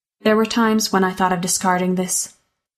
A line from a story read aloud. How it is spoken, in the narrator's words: sighed